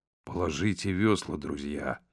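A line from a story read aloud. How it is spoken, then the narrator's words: Quiet. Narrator (Russian): сказал Хаттер тихо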